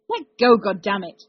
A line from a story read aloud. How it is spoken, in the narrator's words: he snapped when the knight held on